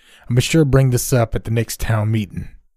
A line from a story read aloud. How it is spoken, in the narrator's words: he snapped back, clearly frustrated by his sudden awakened state